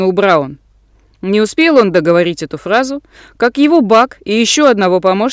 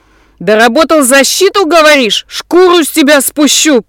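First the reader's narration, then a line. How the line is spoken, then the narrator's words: Spitting furious yelling. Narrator (Russian): плюясь слюной, орал Курт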